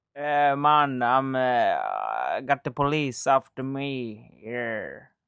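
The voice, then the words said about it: Put-on Jamaican accent. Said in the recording (Swedish): “kan du härma en jamaikansk accent? ... Ja, ganska bra tycker jag. Typ så.”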